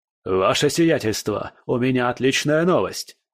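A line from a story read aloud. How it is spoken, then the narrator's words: Excited shout, barely restrained. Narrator (Russian): прокричал он, с трудом сдерживая эмоции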